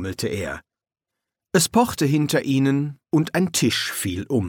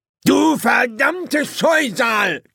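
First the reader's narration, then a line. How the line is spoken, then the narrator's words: Shrieking. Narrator (German): kreischte er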